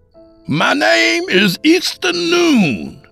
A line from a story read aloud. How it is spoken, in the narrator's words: I shouted